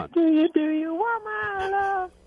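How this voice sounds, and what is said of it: Singing in falsetto. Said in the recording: “A little falsetto there.”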